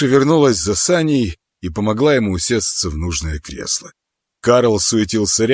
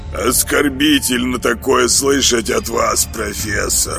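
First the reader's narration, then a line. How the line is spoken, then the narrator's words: Hungry grumble. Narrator (Russian): пробурчал голодный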